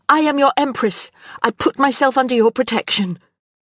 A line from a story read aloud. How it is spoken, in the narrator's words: she cried out